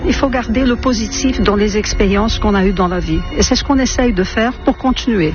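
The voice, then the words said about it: Slight Brazilian accent in French. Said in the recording (French): “un petit accent brésilien”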